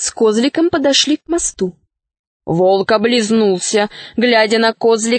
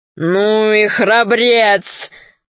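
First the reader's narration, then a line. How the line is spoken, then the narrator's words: Wolf's deep laughter. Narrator (Russian): захохотал басом волк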